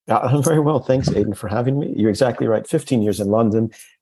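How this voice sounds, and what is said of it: American accent. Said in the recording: “I still haven't lost my very American accent”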